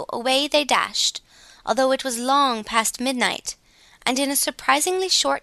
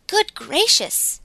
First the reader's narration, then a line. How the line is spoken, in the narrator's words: exclaimed Glossy